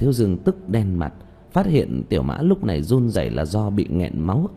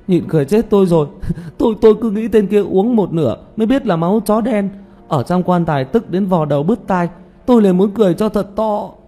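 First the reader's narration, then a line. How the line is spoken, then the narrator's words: Coughing, bursting into laughter. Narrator (Vietnamese): Tiểu Mã ho thêm vài cái, rồi đột nhiên xì một tiếng, bật cười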